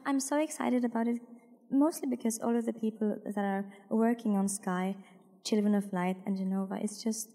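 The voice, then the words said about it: Damaged, strained voice. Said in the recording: “sorry about my voice. It's so fucked up. I sang karaoke last night.”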